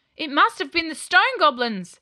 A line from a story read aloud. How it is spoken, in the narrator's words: cried one of the knights